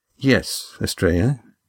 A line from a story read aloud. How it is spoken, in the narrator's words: he said quietly